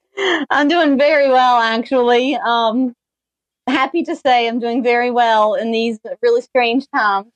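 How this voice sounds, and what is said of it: Strong Southern US accent. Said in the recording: “You have a very strong Southern accent ... I think it's a little stronger because I just listened to you talk ... this would be one of those times ... I did grow up in Kentucky”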